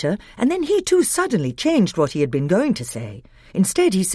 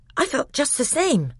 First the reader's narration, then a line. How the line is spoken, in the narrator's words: said Edmund in a breathless voice,